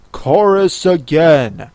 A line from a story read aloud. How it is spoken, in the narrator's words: cried the Gryphon